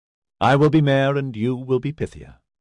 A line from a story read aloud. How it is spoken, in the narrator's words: he replied warmly